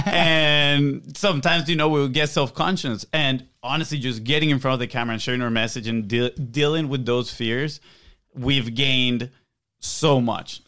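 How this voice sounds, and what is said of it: Slight Venezuelan Spanish accent. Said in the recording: “we're from South America, Venezuela. We have a little bit of an accent”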